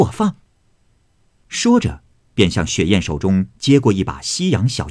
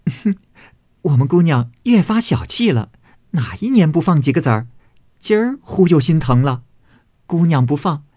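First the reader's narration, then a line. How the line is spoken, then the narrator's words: Laughing. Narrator (Chinese): 紫娟笑道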